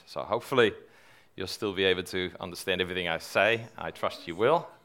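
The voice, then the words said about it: Dutch accent. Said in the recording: “which is why you're hearing a Dutch accent.”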